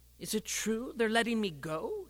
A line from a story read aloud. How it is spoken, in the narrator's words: muttered